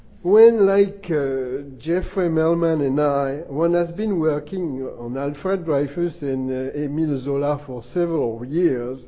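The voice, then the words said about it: Speaks English with an accent. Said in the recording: “I hope you will understand my accent.”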